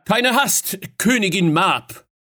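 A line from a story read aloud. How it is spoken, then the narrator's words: Call. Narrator (German): rief Fionn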